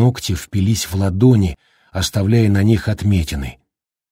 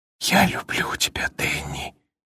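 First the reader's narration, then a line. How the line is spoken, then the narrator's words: Whisper. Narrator (Russian): прошептал он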